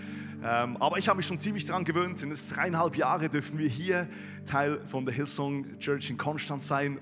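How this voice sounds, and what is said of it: Swiss accent speaking Standard German. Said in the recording (German): “was hat der für einen komischen Dialekt? Ich bin ein Schweizer, der versucht, Hochdeutsch zu sprechen. Also wir Schweizer haben einen richtig krassen Dialekt”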